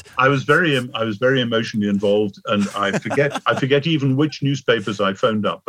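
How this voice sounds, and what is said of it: English accent. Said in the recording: “You just still had your nice little English accent.”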